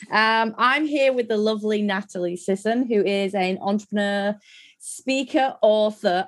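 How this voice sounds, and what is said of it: Hoarse, sore-throated voice. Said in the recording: “I've got a bit of a sore throat”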